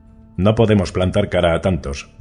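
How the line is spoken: Plain. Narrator (Spanish): dijo Triss Bodley

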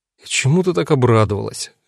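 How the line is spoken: Gloomy question. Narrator (Russian): мрачно поинтересовался я

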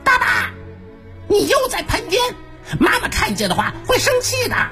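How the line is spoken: Loud shout. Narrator (Chinese): 它大叫一声

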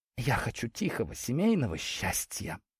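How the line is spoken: Whisper. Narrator (Russian): шепотом произнесла Ляля

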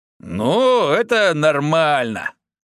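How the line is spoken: Old man's chuckle. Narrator (Russian): хохотнул дед

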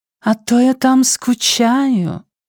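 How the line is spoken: Suggestive drawl. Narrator (Russian): многообещающе протянула она

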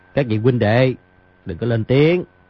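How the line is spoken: Glad, lowered voice. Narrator (Vietnamese): Di Tiểu Bảo cảm mừng, hạ giọng nói

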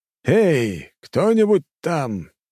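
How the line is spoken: Loud shout. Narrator (Russian): барон громко крикнул

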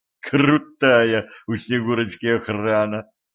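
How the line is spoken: Laughing, slightly breathless. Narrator (Russian): засмеялась слегка запыхавшийся Кэтран

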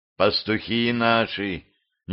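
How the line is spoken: Quiet warrior's voice. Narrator (Russian): негромко сообщил один из воинов

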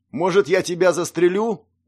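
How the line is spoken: Yelling back. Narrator (Russian): заорал в ответ Алексей

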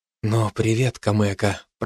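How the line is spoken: Whispering. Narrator (Russian): прошептал я

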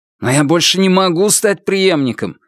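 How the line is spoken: Irritated, less dejected. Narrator (Russian): сказал Звон, уже не столь подавленно, а скорее раздраженно

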